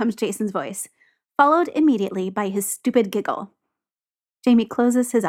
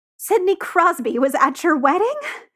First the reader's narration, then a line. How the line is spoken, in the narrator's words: Jamie demands, voice rising so high it squeaks